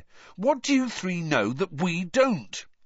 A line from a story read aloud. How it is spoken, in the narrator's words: said Ron irritably